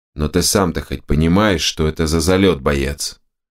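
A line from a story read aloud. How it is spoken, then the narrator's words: Grim, through gritted teeth. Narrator (Russian): мрачно процедил он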